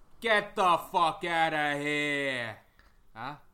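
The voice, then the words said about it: Mobster voice impression. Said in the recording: “my best lobster impersonation ... Like mobster, innit?”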